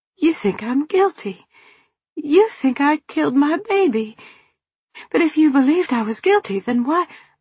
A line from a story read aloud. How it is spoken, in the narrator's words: Nancy sputtered